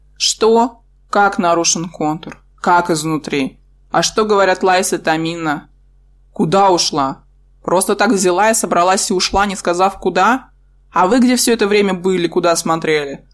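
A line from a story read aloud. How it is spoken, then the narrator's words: Loud growl. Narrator (Russian): Он зарычал в голос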